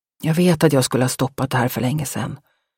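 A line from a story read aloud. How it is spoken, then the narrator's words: Whisper. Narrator (Swedish): viskade Malin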